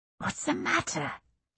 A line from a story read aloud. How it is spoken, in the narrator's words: she whispered hoarsely